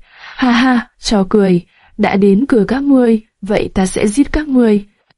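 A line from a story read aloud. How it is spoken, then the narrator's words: Loud contemptuous laughter. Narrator (Vietnamese): Mạc Họa sững sờ, sau đó cười to, giọng điệu khinh miệt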